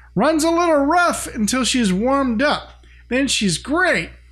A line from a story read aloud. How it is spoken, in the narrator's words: yelling over the loud engine and backfires